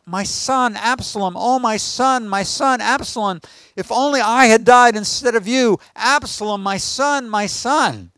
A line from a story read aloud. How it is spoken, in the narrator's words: he cried